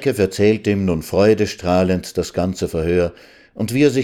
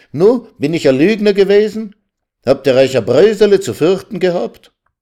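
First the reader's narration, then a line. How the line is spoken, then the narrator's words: Calling out. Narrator (German): rief er ihnen sogleich entgegen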